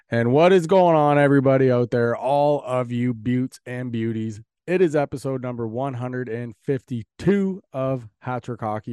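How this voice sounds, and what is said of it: Sick, under-the-weather voice. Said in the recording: “you guys can probably tell by my voice already that I'm not exactly feeling the best.”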